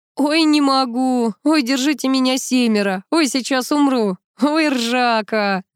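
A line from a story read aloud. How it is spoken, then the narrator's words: Loud guffawing. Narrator (Russian): захохотал Гарик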